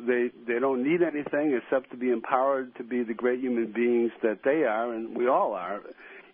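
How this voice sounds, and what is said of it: Boston accent. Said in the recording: “I think he's trying to discern your ... Accent. ... Boston.”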